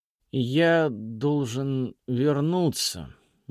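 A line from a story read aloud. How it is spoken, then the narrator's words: Slow and careful. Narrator (Russian): медленно и осторожно сказал Хрисанфос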